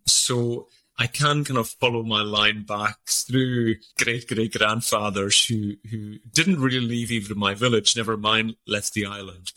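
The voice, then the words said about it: Hebridean Scottish accent. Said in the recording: “our accent is quite different from the rest of Scotland... I sounded like the Swedish chef from the Muppets”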